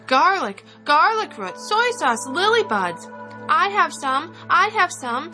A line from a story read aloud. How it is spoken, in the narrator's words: people cried out